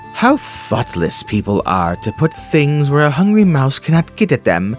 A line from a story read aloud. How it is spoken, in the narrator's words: said Mama Mouse to herself with a sigh